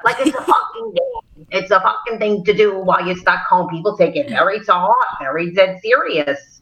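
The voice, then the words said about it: Brooklyn accent. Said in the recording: “You've got an authentic Brooklyn accent, you know, born and raised in the Brooklyn.”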